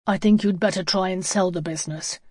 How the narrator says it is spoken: he said coldly

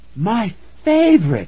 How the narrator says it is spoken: she cried

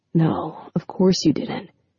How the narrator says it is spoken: he said softly

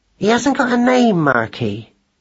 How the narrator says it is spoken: she said in a distracted voice

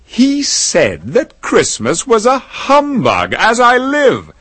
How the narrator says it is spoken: cried Scrooge's nephew

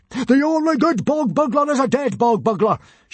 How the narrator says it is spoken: shouted Stoic at the top of his voice

